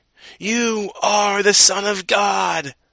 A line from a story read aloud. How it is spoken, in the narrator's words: demons came out of many people, shouting